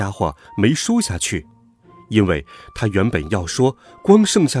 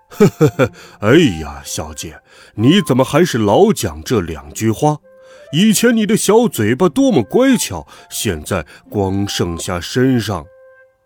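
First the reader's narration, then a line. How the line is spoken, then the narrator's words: Chuckling. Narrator (Chinese): 黑家伙呵呵笑起来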